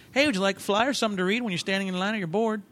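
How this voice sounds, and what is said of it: Imitates another person's voice. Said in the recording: “I was doing a poor impression of what I heard was ... magical spiel ... That's not a bad impersonation of me.”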